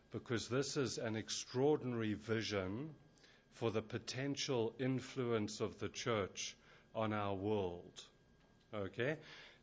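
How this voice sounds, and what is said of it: South African accent. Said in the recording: “I come originally from South Africa, in case you're wondering where the accent comes from, and then more recently from England.”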